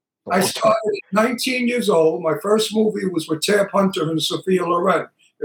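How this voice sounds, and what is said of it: Brooklyn accent. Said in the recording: “Never lose my Brooklyn accent”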